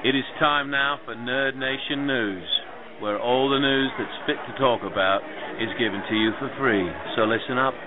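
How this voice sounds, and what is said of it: Fake British accent. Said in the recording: “giving you my fake British accent”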